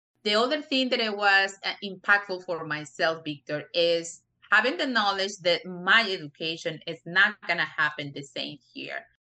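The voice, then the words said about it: Strong non-native English accent. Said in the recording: “if I have a strong accent, it is. It's a strong accent”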